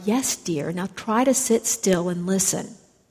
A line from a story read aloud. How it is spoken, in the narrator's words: she leaned down to him and said quietly